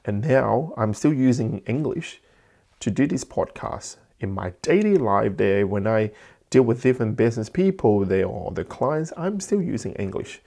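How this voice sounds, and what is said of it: Heavy non-native English accent. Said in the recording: “my heavy, thick accent there, English is not my first language”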